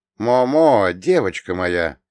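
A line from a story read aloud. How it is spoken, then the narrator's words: Fairly loud call. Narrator (Russian): Я довольно громко позвал ее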